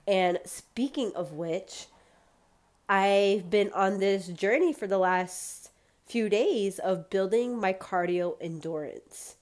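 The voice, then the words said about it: Congested, slightly wheezy voice. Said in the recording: “I sound a little congested, allergies are still kicking my butt. And I'm a little wheezy because I just got back in from a run.”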